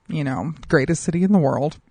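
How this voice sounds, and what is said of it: Sarcastic tone. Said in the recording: “Am I being sarcastic? Maybe. Maybe I'm being sarcastic.”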